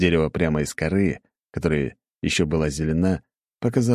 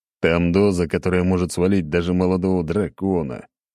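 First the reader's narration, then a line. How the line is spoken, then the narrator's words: Tired groan. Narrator (Russian): я устало простонал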